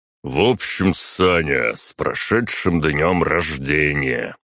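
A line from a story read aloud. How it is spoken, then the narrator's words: Deep booming voice. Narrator (Russian): пробасил Тёма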